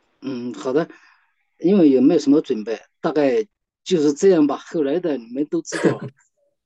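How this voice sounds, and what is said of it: Guizhou accent. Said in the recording (Chinese): “你听你的声音，我就想起了贵州啊，特别亲切的这个这个贵州贵州口音。”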